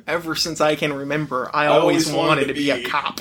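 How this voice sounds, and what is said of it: Ray Liotta impression, Goodfellas narration. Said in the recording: “We're doing our impression of the Ray Liotta impression that the pigeons do in Animaniacs. We're like barely doing a Ray Liotta impression.”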